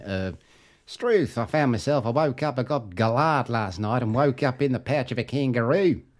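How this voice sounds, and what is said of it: Put-on Australian accent, rising sentence ends. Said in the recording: “for Australian, all you got to do is make sure the last the last word of the sentence is higher”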